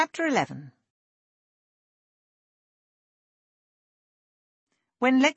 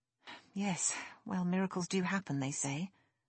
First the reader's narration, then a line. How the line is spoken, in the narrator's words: Lexi muttered